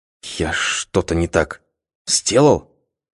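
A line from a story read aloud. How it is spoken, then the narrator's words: Frightened whisper. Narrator (Russian): испуганным шепотом спросил Михаил Дмитриевич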